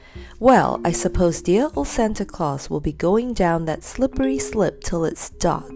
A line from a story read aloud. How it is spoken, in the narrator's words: said Joe